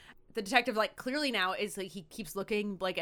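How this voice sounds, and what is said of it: Usual voice. Nothing is said of it.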